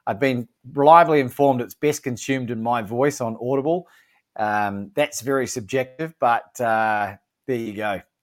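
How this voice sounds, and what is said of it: Australian accent. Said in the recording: “an Australian accent”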